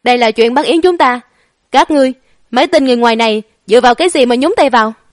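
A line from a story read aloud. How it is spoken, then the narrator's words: Arrogant loud shout. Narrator (Vietnamese): thái độ cũng cực kỳ kiêu ngạo, xương nanh múa vuốt hét lớn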